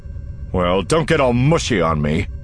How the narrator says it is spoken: he snaps

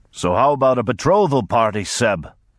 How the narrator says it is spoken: he would bellow and laugh, not waiting for any answer

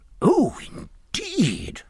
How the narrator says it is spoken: cried the Admiral, deeply impressed

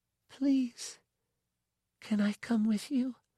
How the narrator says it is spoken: she whispered, her face tightening again, her eyes getting big

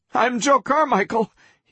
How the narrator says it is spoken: he gasped

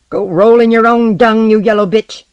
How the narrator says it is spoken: he shouted at her silence

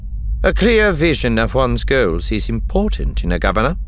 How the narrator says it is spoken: Tarkin said dryly

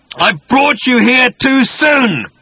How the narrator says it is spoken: He started to scream and bellow

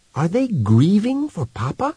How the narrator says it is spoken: whispered Wanda

